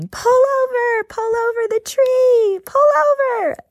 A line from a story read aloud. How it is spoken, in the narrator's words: All of us started screaming